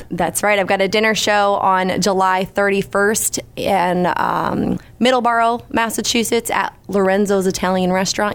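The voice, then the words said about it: Slight New England accent. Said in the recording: “there's the New England accent sneaking through just a little bit, dinner show ... it drifts in and out”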